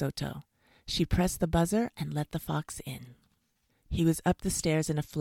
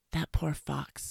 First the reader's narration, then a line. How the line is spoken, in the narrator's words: he whispered to his wife